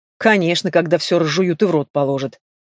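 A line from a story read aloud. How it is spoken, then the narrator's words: Skeptical snort. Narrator (Russian): хмыкнул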